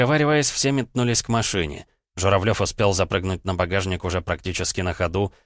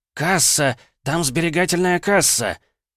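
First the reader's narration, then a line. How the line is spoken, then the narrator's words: Excited, vexed shout. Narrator (Russian): в волнении, с досадой на себя, что не сразу смог догадаться, выкрикнул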